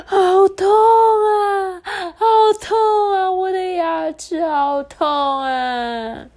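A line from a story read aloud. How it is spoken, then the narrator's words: Little rabbit crying. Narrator (Chinese): 兔子妹妹…哭着说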